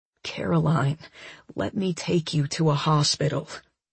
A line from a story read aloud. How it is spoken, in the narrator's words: Daniel whisper